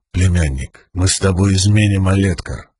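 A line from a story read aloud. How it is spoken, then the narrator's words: Soft, gentle. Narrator (Russian): мягко произнес Далинар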